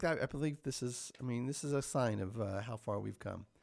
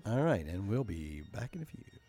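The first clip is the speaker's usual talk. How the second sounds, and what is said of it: Radio host voice. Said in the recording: “Is that your radio voice?”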